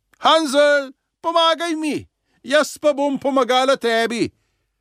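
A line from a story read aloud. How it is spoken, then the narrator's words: Calling out. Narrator (Slovenian): mu je zaklicala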